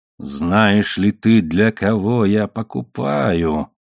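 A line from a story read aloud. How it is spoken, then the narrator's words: Growl. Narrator (Russian): прорычал Самани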